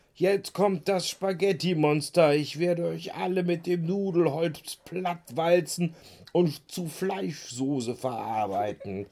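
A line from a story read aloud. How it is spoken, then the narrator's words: Called out. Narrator (German): rief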